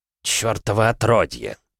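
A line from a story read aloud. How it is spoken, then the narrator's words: Hissed. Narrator (Russian): прошипел Джиро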